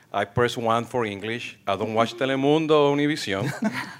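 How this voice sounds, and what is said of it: Speaks English with an accent. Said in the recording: “I'm bilingual. I have an accent.”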